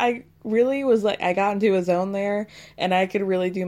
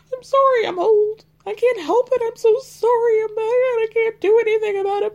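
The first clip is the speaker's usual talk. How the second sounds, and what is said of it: Crying imitation of another person's voice. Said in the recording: “my Jenny crying impression ... that really embarrassing Jenny cry”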